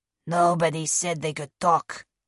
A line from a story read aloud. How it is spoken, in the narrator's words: Blanco growled